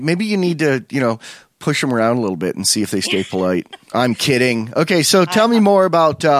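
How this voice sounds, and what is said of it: Usual voice. Nothing is said of it.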